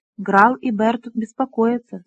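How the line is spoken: Plain. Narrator (Russian): сказала она

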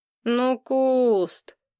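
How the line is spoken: Drawling. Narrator (Russian): протянул Ник

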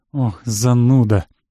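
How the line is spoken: Sighing. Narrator (Russian): опять вздохнула Юля

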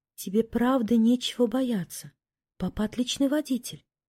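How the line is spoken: Soft whisper. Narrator (Russian): тихо шепнула ему на ухо

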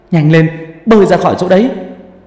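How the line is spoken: Shouting. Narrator (Vietnamese): thằng Dũng hét lên

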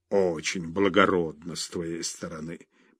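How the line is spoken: Grumbling father. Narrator (Russian): проворчал отец

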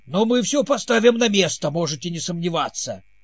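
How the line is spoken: Barking king. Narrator (Russian): рявкнул король

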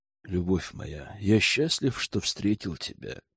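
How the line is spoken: Silky ingratiating male voice. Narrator (Russian): вкрадчиво произнес герцог

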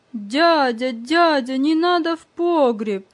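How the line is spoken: Frightened shouting. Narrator (Russian): испуганно кричал

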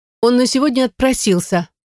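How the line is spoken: Cheerful, monotone report. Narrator (Russian): бодро рапортует Рита, не меняя тональности голоса

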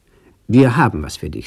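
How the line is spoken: Plain. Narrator (German): sagte Sam

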